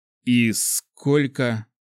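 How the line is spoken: Forced out. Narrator (Russian): выдавил я

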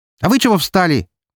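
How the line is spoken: Barked shout. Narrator (Russian): гаркнула она на парочку

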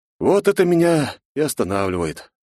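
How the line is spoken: Deep sigh. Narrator (Russian): глубоко вздохнул я

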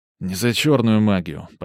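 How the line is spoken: Weary correction. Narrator (Russian): поправил я устало

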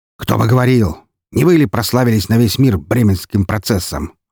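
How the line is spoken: Snapping retort. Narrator (Russian): огрызнулся губернатор

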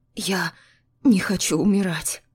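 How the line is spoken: Hoarse, swallowing. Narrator (Russian): хриплю, сглатывая

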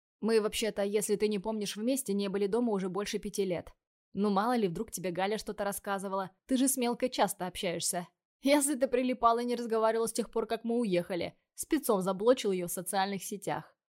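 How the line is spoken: Snorting. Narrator (Russian): хмыкнул второй

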